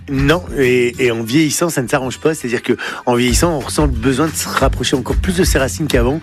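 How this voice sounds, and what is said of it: Northern French regional accent. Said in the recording (French): “n'a jamais perdu ni son accent, ni ses traditions du Nord ... avec cet accent, on sait que je viens pas de là où je suis, on sait que je viens du Nord”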